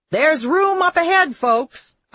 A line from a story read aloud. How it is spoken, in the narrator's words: a conductor shouted from the forward end